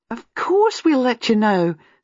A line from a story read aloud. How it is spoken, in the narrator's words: said Gwenda warmly